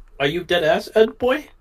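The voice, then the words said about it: Weak Eastern European character impression. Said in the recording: “You gotta work on your Rolf impersonation... It's just Eastern Europe... It's a very unique voice.”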